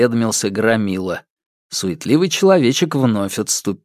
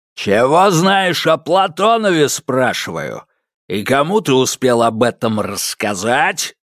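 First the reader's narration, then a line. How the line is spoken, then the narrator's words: Barking thug. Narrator (Russian): рявкнул громила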